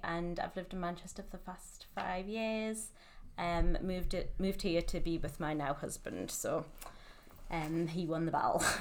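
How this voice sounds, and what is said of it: Newcastle Geordie accent. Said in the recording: “I'm from Newcastle. You might gather by the accent ... Some people think it's Welsh. Some people think it's Irish.”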